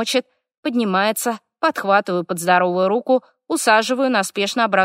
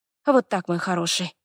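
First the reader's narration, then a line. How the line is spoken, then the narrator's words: Muttered. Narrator (Russian): бормочу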